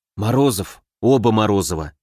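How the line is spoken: Clarifying in undertone. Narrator (Russian): уточнил Соболев вполголоса

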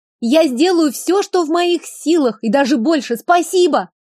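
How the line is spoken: Calling after someone. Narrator (Russian): крикнула вслед

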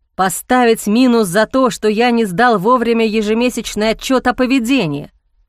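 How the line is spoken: Growling. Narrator (Russian): прорычал Ник

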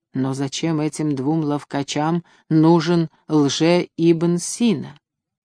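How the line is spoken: Whisper. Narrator (Russian): тонкие губы под усами под ковкой прошептали

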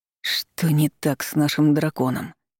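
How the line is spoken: Suffering, pained proclamation. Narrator (Russian): страдальческим голосом возвестил Шираж

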